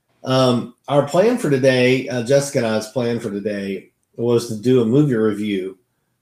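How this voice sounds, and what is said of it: Voice off, congested from allergies. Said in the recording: “my allergies are kind of driving me a little crazy, so my voice is kind of off today”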